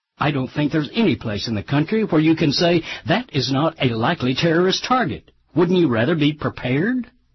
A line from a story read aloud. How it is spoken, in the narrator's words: As a sales executive for Lenco Industries, which makes the Bearcat, snapped to an inquiring reporter